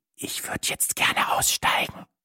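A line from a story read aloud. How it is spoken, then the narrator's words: Whisper. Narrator (German): flüsterte ich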